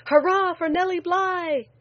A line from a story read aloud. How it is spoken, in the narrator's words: a young man shouted